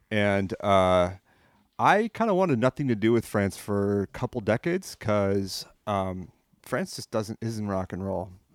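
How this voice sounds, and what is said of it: French accent. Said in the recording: “So I grew up in France. I came here a long time ago. Hence this accent I've got.”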